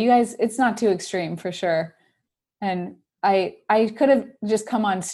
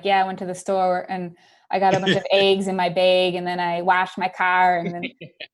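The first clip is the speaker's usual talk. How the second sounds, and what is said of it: Put-on Philadelphia accent. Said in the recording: “That's the Philly accent right there. That's the Philly accent. ... Sounds almost like Boston.”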